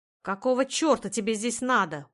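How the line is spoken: Growl. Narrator (Russian): прорычал он

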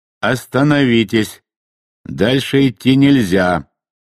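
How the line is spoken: Thunderous booming voice. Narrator (Russian): прогремел оттуда громоподобный голос

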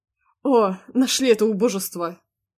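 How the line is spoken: Snorted. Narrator (Russian): Фыркнул он

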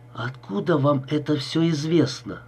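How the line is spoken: Strained, forced out. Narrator (Russian): с трудом выдавил

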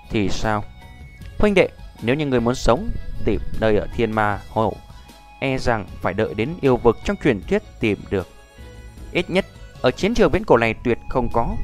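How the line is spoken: Soft steady voice. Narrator (Vietnamese): Lâm Động âm thanh vẫn là không dao động, khẽ nói

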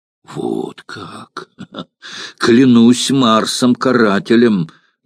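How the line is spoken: Mocking exclamation. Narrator (Russian): насмешливо воскликнул Крас

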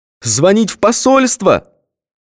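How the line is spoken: Near-tearful shout. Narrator (Russian): чуть не плача закричал

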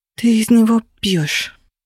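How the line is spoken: Relieved whisper. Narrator (Russian): прошептала я, чувствуя себя значительно лучше

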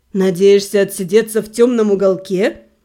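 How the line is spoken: Sarcastic snort. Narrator (Russian): Себастьян с сарказмом фыркнул

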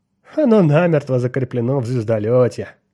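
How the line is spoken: Laughing. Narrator (Russian): рассмеялся Бентон

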